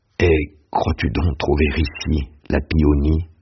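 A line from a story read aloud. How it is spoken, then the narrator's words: Plain. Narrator (French): dit Bianchon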